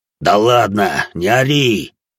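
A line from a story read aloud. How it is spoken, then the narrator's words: Growled. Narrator (Russian): рыкнул Саша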